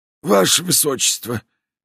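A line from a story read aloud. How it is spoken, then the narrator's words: Pleading voice. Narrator (Russian): начал он снова молящим голосом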